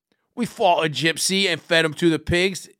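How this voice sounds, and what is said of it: Put-on Cockney British accent. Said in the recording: “she'll do a Cockney British accent”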